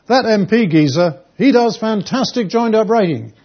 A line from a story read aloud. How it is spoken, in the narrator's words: saying at the top of his voice over and over again